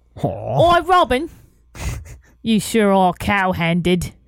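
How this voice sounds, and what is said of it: Put-on Cockney accent. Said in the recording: “say these next ones in a Cockney accent”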